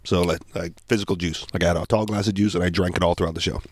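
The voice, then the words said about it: Sick, strained voice. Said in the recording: “I'm feeling under the weather ... my apologies for being a little bit under the weather. So pardon my voice.”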